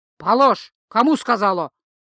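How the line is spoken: Growling again. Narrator (Russian): вновь рыкнуло зеркало

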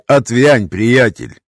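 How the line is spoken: Rude interruption. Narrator (Russian): Грубо перебил я его

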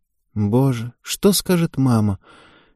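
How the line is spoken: Breathy exhale. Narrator (Russian): Ева выдохнула

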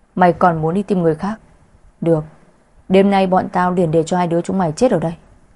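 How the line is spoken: Angry. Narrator (Vietnamese): Hai tên đàn ông kia tức giận nói

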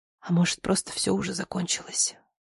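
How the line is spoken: Whispered. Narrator (Russian): прошептала

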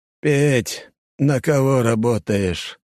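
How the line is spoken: Flat lifeless voice. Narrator (Russian): Таким же ровным, безжизненным голосом, как у патриарха, спросил деда Костя

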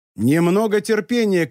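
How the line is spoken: Shouted. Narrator (Russian): крикнул Люпен

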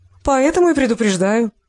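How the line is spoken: Laughing. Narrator (Russian): рассмеялась Оксана

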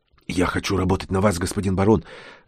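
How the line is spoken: Barely audible whisper. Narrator (Russian): зашептал он еле слышно

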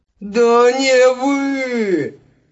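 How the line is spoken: Despairing howl. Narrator (Russian): Взвыл в отчаянии Кса

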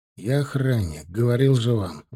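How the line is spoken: Sighing. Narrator (Russian): вздохнул я

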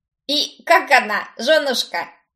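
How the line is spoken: Chuckle. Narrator (Russian): хохотнул его приятель

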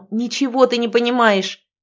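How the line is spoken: Almost shouting. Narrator (Russian): почти крикнула я

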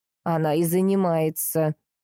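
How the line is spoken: Dry, flat tone. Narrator (Russian): сухо проговорила Андриана

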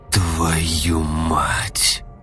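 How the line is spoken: Hissed. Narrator (Russian): Прошипел он

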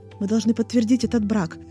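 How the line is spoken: Whispering. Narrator (Russian): зашептал Сяо Джань

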